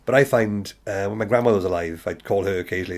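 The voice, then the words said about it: Softened, somewhat posh Welsh accent. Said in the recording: “This is me posh, by the way. I used to talk very, very, very valleys ... got it smoothed off over like several years ... we do have a rather sing-song accent”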